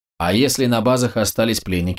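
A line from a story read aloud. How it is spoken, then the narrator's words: Plain. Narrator (Russian): спросил он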